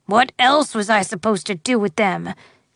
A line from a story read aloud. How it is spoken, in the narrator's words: grumbled the old farmer